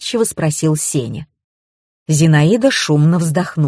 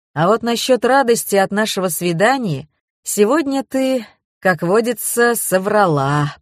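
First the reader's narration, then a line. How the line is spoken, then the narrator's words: Deep bass voice. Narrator (Russian): пробасил Евгений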